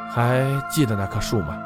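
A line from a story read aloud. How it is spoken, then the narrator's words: Soft sigh. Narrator (Chinese): 美惠轻叹了一口气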